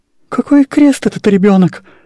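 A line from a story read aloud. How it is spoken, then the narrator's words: Sighing. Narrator (Russian): вздохнула генеральша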